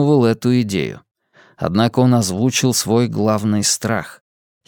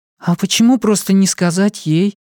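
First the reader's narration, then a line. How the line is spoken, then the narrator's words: Sighing. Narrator (Russian): Роланд вздохнул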